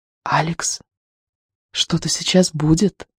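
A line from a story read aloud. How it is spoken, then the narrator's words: Inner whispering voice. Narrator (Russian): какой-то голос, пробившийся из тайных глубин, нашептывал ему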